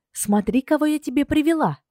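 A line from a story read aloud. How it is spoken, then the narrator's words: Delighted exclamation. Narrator (Russian): Воскликнула восторженно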